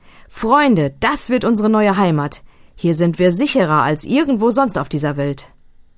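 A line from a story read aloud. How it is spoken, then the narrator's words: Happy call. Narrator (German): Fletcher rief glücklich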